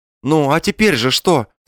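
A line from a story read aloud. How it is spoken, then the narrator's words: Nervous smiling question. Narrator (Russian): спросил Балаганов, испуганно улыбаясь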